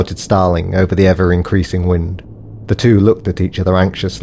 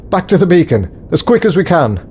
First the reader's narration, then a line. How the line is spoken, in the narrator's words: yelled Davison